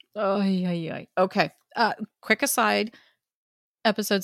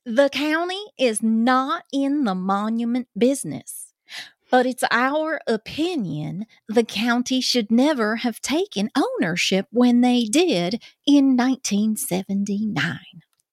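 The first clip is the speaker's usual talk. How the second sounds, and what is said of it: Put-on Southern US country accent. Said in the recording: “I got to do the Southern accent ... Getting in my country accent here. Gotta sound like all those cousins down in Georgia.”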